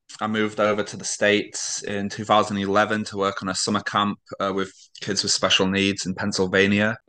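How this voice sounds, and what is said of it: British accent. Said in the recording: “your accent ... I'm obviously very British.”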